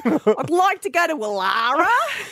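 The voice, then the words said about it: Exaggerated Australian accent. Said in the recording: “You've got to adjust your voice so Siri can understand you ... That's a good Australian accent. I find it's a very hard accent to do.”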